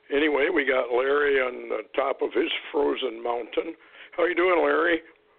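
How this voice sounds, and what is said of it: Rough, unwell-sounding voice. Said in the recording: “I have to excuse my voice. Still got a little bronchitis or whatever it is.”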